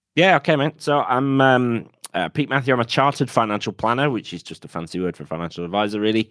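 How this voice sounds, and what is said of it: Yorkshire English accent. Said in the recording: “my accent is from somewhere north of that. So I'm a Yorkshireman originally”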